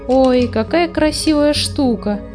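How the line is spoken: Exclaiming. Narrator (Russian): воскликнула Фрекин Снорк

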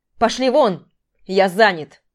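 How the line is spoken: Barked. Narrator (Russian): рявкнул Дима

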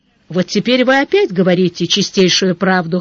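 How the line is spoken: Snorting. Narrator (Russian): хмыкнул Сварог

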